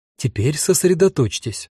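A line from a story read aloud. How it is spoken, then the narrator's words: Stern. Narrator (Russian): строго сказала Таня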